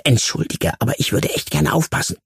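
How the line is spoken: Hissing. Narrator (German): zischte

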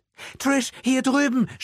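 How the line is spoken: Shouted. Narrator (German): schrie Michelle

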